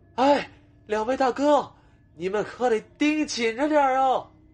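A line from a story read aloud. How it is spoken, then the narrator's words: Shouting to people far off. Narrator (Chinese): 小探抬起头，对着埋伏在不远处某栋建筑楼顶上的潘凤和华雄喊道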